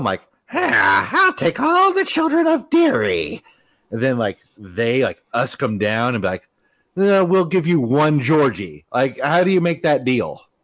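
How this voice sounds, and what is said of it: Bad impression of a creepy clown. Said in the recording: “terrible Pennywise impression. ... My Pennywise is the exact same as my Skeletor.”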